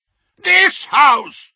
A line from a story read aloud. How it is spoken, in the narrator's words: shrieked Uncle Vernon, the vein in his forehead starting to pulse